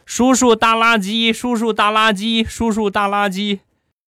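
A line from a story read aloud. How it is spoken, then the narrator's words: Excited child shouting. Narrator (Chinese): 小家伙很兴奋啊，很兴奋的冲着我就喊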